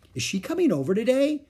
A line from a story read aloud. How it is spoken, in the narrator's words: She asked eagerly